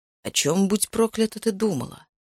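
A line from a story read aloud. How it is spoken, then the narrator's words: Hissed through clenched teeth. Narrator (Russian): прошипел сквозь стиснутые зубы Макс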